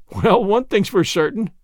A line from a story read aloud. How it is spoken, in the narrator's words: said Gilbert, laughing